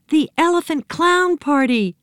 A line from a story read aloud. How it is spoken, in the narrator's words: cried Nancy